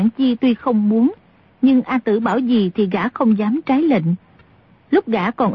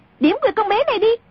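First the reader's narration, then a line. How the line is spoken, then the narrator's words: Sudden shout. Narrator (Vietnamese): A Tử bỗng quát lên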